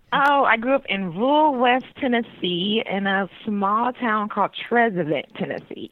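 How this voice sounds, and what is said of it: Southern American accent. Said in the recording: “You sound like you have a Southern accent”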